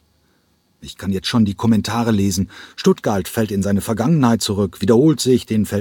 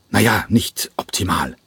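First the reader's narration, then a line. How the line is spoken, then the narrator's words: Grumbled. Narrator (German): brummte Schäfer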